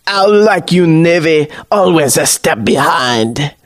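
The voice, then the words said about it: Villainous pirate with French accent. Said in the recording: “Pirate Jeff, with a killer French accent.”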